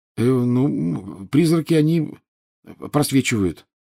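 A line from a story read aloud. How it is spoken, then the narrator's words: Mumbled. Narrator (Russian): промямлил Гарри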